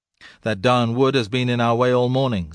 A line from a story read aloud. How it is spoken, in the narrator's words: said one